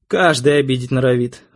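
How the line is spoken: Sighing. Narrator (Russian): вздохнула Арина

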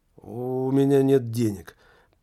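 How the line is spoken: Annoyed, dismissive mutter. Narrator (Russian): пробормотал, желая разом прекратить этот дурацкий, надоедливый спектакль

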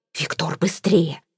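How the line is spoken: Hissing, aunt. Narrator (Russian): прошипела тетушка Мейбл

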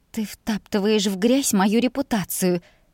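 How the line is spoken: Timid babble. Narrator (Russian): несмело пролепетала я

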